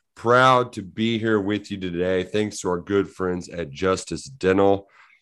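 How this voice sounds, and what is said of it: Hoarse voice. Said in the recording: “I'm a very hoarse”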